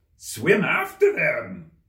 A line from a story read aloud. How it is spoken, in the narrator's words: screamed the Gryphon